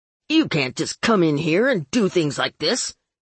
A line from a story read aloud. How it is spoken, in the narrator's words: he snapped